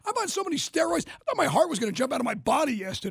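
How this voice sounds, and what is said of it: Worn-out, strained voice. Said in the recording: “My voice is shot again. The pollen's killing me.”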